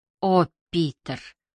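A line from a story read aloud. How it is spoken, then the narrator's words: Sighing. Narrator (Russian): вздохнула Джози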